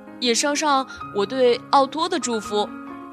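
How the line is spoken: Calling out. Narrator (Chinese): 宝儿叫道

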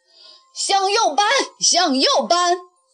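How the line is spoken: Man bellowing. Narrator (Chinese): 那条船上的汉子大声吼叫着

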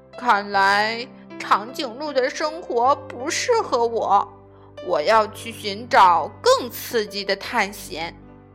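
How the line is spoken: Sighing, reflective. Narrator (Chinese): 小猪感叹

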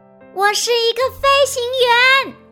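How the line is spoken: Loud answer. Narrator (Chinese): 大海大声回答

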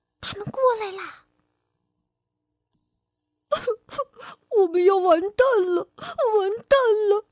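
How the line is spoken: Terrified crying, trembling. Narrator (Chinese): 小火苗吓得哭起来，浑身抖个不停

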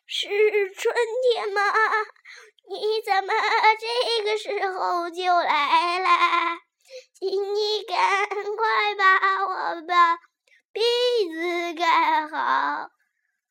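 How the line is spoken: Trembling voice. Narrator (Chinese): 小草的声音直发抖，说

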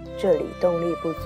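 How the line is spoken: Smiling, slightly cheered. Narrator (Chinese): 他好像高兴了一些，笑着说

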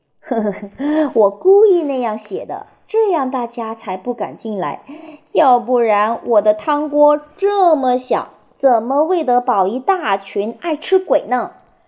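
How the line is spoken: Old woman laughing. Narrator (Chinese): 蜥蜴婆婆笑着说

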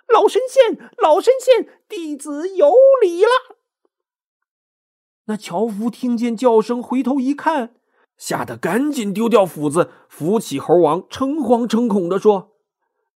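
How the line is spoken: Calling out. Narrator (Chinese): 美猴王叫道

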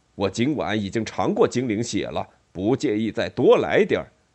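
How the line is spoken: Roaring. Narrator (Chinese): 爱因斯凯迪吼道

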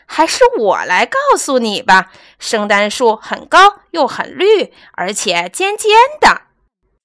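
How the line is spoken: Laughing loudly. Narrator (Chinese): 他大笑着说

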